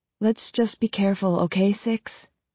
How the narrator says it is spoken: She says quietly

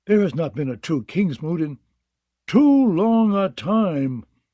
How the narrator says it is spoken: Aaron cried in anguish

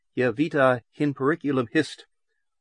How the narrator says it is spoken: the youth said calmly and unmistakably

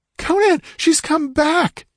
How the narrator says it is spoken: The shriek ended in a gurgle

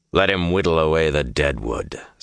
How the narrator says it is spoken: Samael said gruffly

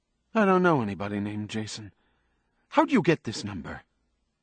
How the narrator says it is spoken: Her tone was troubled but also harsh

